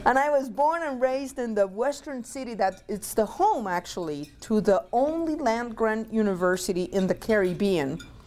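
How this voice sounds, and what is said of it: Puerto Rican accent. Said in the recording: “I was born and raised in Puerto Rico. If you detect an accent, it's the mic.”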